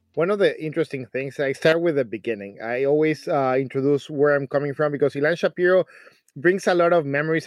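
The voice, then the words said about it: Mexican-accented English. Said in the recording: “you're now hearing my accent ... I come from a small city. It's called Mexico City.”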